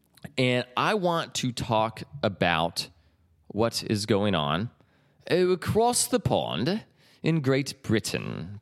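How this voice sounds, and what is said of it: Bad put-on British accent. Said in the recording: “Pardon the terrible accent. ... No, I'm not going to continue to speak in a British accent.”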